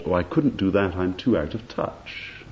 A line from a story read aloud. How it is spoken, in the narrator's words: he answered quite blandly and without thought